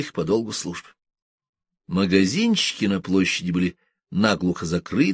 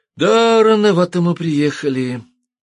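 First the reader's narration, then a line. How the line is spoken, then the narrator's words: Sighing. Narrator (Russian): вздохнул Йоковатари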